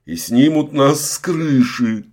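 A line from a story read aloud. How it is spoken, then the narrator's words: Pleading. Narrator (Russian): взмолился Кирьянов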